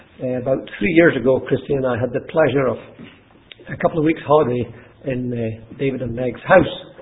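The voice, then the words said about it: Mixed Scottish accent. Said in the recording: “my Scottish accent, funny Scottish accent, because I don't have one authentic Scottish accent, that's a kind of hybrid of various different places where I used to live”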